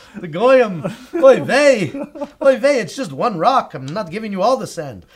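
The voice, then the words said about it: God voiced with Yiddish accent. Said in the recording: “you gave God a Yiddish accent.”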